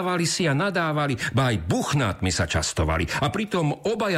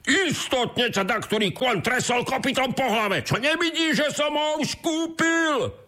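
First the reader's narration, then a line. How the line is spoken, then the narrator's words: Shouted. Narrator (Slovak): zakričal druhý boháč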